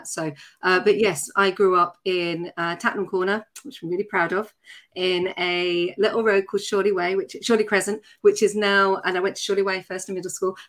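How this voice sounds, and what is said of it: Surrey accent. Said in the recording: “I'm dropping my accent and going into my Surrey accent because that's actually what I come from. But I had elocution lessons”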